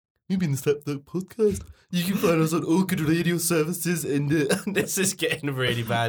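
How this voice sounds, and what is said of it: Put-on Birmingham accent. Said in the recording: “Do a Birmingham accent quickly. ... let him bomb.”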